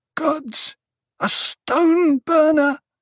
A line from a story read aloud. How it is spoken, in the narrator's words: someone whimpered